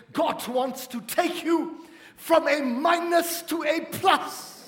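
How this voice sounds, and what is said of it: Reinhard Bonnke accent impression. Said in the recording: “If I was to try to do it in his accent,”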